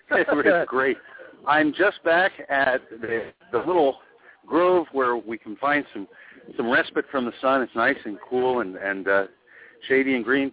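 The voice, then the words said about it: Out of breath, panting speech. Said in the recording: “I've been walking this whole time. That's why I'm out of breath”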